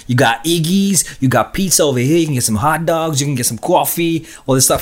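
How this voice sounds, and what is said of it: Put-on American accent, self-described rough. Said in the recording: “I'm gonna try it. I'm probably gonna butcher it. ... I only heard it in movies, and I'm like, I love your accent.”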